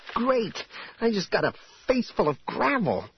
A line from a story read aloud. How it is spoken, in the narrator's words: Jaina spluttered